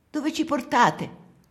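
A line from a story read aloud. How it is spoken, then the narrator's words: Woman shouting from street. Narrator (Italian): urla una donna dalla strada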